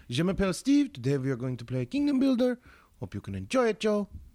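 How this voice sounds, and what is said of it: Put-on French accent. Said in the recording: “preferably in either a German or French accent”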